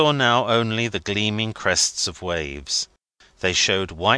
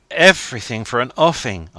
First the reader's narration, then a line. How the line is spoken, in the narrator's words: cried